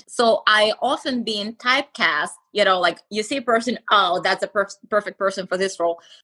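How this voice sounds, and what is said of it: Russian accent. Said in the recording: “obviously I have Russian accent”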